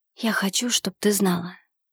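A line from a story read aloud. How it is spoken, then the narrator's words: Whisper. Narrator (Russian): прошептал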